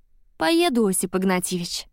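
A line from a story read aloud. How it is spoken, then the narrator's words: Sigh. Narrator (Russian): вздохнула Машка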